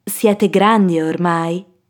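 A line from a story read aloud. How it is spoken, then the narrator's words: Plain. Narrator (Italian): disse la mamma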